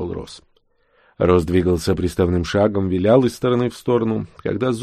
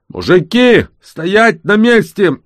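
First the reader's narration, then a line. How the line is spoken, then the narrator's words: Shouting. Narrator (Russian): закричали из Хаммера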